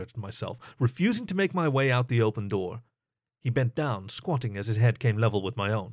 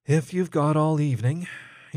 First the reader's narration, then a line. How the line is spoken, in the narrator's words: sighed